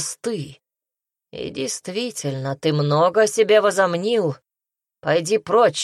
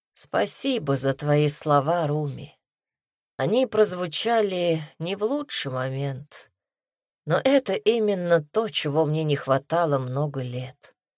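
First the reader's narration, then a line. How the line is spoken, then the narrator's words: Sad. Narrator (Russian): печально произнес царь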